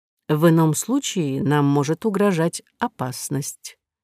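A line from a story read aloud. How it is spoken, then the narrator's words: Quiet. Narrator (Russian): тихо сказал второй из незаметных вельмож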